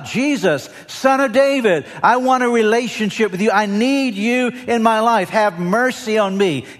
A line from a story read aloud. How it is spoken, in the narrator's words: he starts shouting out